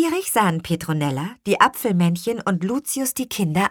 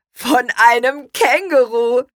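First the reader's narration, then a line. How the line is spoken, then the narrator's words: Laughing. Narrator (German): lachte er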